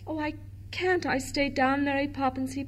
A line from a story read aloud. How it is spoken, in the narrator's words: he pleaded